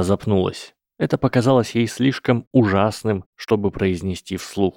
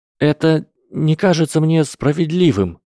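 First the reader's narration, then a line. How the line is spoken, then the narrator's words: Trembling voice. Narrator (Russian): сказала Гермиона дрожащим голосом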